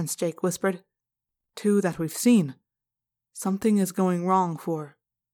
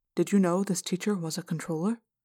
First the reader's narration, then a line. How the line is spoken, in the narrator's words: I asked Prince Jake, making my voice very quiet